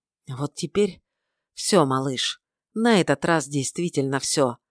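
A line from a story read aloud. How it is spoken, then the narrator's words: Sighing. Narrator (Russian): вздохнул он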